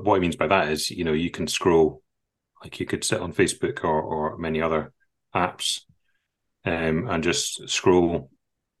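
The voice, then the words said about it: Accented English speech. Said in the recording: “my accent is not clear”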